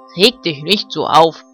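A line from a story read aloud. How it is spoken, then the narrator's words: Dog barking. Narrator (German): bellte Ben, der Hofhund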